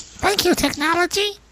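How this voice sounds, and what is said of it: Creepy Elmo-like character voice. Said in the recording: “that was a creepy voice ... that voice actually reminded me of Elmo a little bit”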